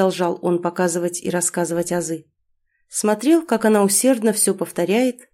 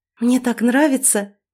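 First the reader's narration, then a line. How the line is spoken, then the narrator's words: Delighted exclamation. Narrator (Russian): восхищенно воскликнула она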